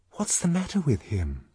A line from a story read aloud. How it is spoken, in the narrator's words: whispered Lenina